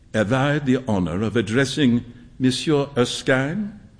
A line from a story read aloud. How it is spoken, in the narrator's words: An old gentleman said in a slight French accent